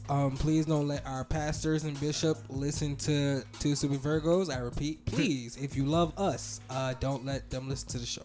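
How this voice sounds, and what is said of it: Sick, under-the-weather voice. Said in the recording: “pardon the voice, but I am a little bit under the weather”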